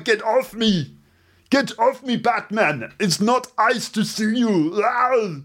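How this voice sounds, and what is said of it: Imitates another person's voice. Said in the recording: “does that Arnold Schwarzenegger voice. You know, the noise that Arnold Schwarzenegger makes when someone is attacking him in a film? ... that's what he sounds like in English”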